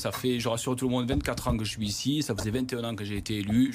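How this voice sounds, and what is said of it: Regional French accent from Rodez. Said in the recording (French): “Vous êtes né à Rodez, vous avez conservé cet accent qui fait pas très couleur locale pour un député du Rhône, mais vous en êtes fier quand même de cet accent”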